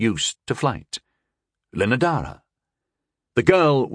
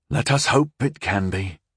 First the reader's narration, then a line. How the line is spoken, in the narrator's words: I sighed wearily